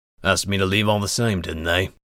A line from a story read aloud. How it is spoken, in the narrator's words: Voslo grumbled